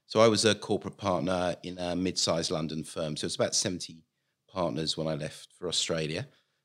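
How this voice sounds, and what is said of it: London English accent. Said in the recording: “as you may tell from the accent, I come from London”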